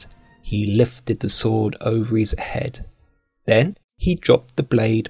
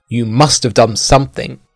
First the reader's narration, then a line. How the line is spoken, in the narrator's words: yelled Sir Kay